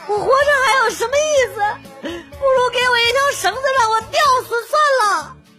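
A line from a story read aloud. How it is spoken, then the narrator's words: Woman crying and shouting. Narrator (Chinese): 那个女的一边哭一边喊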